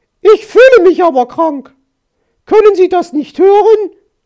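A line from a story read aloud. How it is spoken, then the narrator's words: Startled shout, no croak. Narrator (German): schrie und erschrak, denn sie hatte das Krächzen vergessen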